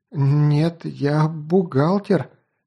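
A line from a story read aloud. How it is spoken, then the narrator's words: Stammering frightened girl. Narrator (Russian): заиканием ответила перепуганная девица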